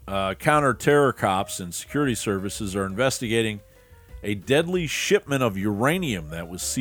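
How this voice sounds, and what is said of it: Usual voice. Nothing is said of it.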